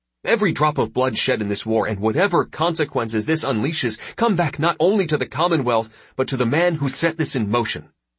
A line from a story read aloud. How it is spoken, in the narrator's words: he snapped